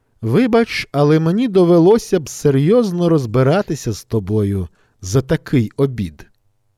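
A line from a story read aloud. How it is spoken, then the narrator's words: Laughing reply. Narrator (Ukrainian): Розсміявшись, співрозмовник відповів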